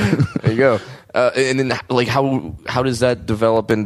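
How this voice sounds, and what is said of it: Usual voice. Nothing is said of it.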